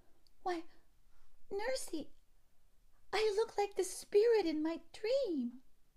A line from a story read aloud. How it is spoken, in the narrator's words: she started back, exclaiming